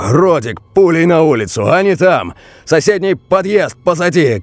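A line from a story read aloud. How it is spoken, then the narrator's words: Shouting over radio. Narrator (Russian): крикнул в рацию старший дозорный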